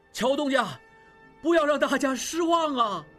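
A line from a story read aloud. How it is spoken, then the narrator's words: Crowd shouting loudly. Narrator (Chinese): 众人又大声喊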